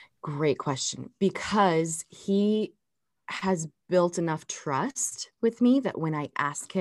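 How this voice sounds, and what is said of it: Usual voice. Nothing is said of it.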